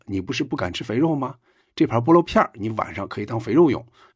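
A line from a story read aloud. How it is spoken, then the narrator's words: Quiet. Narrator (Chinese): 英达就小声对关凌说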